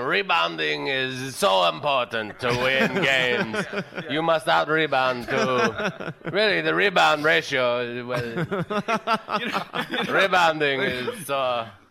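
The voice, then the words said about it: Imitates another person's voice. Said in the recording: “my bad impression ... I'm just doing Bobby Sabga”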